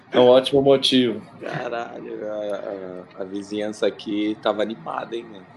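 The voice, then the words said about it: Hoarse voice. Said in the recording (Portuguese): “tô rouco, mano. Agora que eu percebi. ... tô rouco de gritar”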